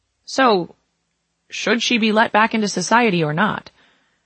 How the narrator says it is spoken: The doctor faltered

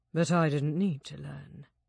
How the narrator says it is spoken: Jack said quietly

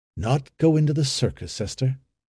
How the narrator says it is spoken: By a mighty effort, however, he controlled himself and asked calmly

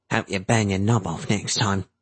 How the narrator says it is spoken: Cap muttered

